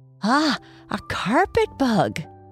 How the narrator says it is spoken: voice broke slightly, and then, the first thing I knew, she spied me and cried

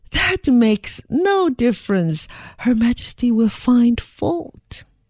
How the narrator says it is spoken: They laughed and said

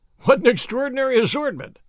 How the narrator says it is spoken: I exclaimed

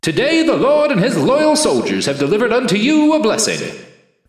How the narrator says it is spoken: the martyr's voice boomed

